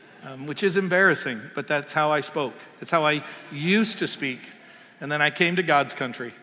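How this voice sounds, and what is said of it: Usual voice. Nothing is said of it.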